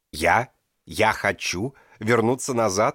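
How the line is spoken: Exclaiming. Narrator (Russian): воскликнул Эмилио

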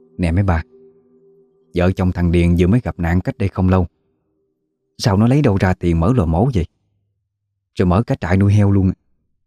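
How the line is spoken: Quiet gossiping murmur. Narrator (Vietnamese): Một người khẽ nói nhỏ với mấy bà còn lại

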